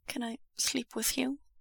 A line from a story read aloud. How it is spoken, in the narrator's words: Wei Wuxian asks quietly